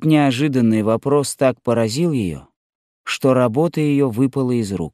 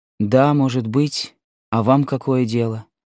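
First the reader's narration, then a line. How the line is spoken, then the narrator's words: Cold tone. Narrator (Russian): отвечала она холодным тоном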